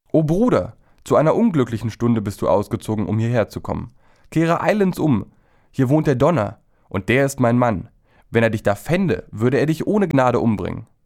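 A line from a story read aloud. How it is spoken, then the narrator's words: A voice calling from window. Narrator (German): Da rief ihm aus einem Fenster eine Stimme zu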